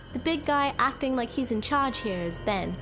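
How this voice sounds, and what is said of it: Heavy British accent. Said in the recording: “She had a heavy British accent.”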